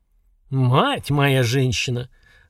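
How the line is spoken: Stunned exhale. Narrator (Russian): ошалело выдохнул Горд

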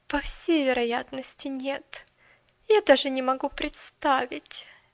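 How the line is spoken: Indifferent sigh. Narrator (Russian): безразлично вздохнула мисс Кэрю

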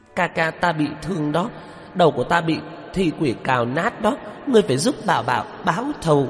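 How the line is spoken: Wailing, sobbing. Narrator (Vietnamese): Bà Bảo gào khóc

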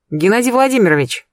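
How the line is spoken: Cheerful. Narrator (Russian): бодро начала я

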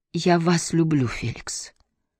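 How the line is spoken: Barely audible repeat. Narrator (Russian): Она повторила едва слышно

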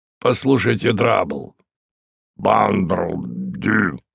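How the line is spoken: Hoarse voice. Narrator (Russian): Время от времени слышалось хриплое

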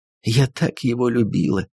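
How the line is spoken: Sobbing. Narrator (Russian): рыдала она

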